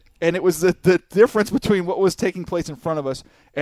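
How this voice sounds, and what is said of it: Usual voice. Nothing is said of it.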